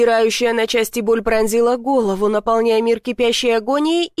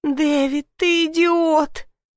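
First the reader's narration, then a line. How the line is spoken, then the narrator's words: Groaning. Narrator (Russian): простонала Сьюзен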